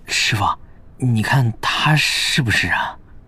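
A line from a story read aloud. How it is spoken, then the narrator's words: Whisper. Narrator (Chinese): 乐月凑到贺姬子身边，小声道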